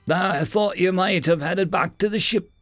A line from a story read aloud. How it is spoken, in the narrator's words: Nick said in his admittedly strange accent